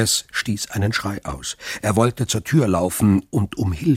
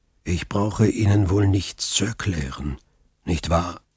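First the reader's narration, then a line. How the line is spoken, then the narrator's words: Calm. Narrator (German): sagte Faria ruhig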